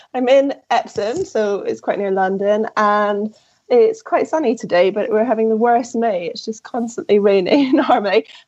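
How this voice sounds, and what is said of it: Croaky, hoarse voice. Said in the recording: “I have a lovely cold, as you can probably hear from my voice. I'm a bit croaky.”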